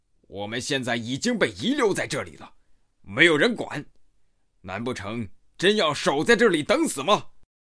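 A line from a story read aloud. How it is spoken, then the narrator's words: Bearded man, harsh demand. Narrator (Chinese): 络腮胡子大汉厉声责问道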